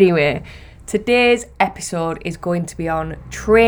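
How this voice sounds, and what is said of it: Usual voice. Nothing is said of it.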